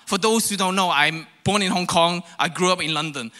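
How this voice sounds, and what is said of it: Mixed, all-over-the-place accent. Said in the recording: “I have this ... kind of accent. Like it's all over the place.”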